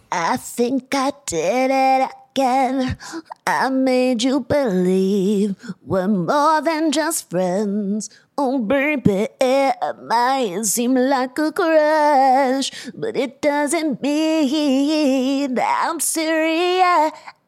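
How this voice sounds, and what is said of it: Imitates another person's voice. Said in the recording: “So I did my Britney impression.”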